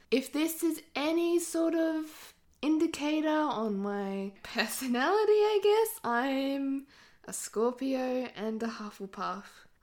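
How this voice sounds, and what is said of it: Australian accent. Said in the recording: “I live in Australia, if you could not tell by my accent.”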